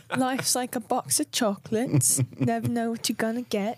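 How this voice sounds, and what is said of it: Forrest Gump impression, British-tinged. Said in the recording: “That was the closest Pippin impersonation you've ever done, and it was your Forrest Gump ... Doing British Forrest Gump.”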